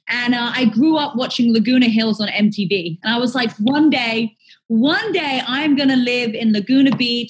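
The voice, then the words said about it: English accent. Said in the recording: “I'm from England. My accent gives that away.”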